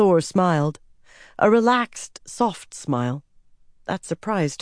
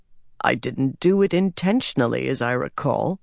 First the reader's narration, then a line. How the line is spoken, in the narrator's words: said dryly